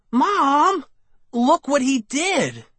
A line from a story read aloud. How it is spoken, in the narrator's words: I cried